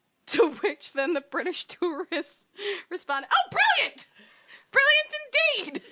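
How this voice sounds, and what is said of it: Put-on British accent. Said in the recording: “they sound so British”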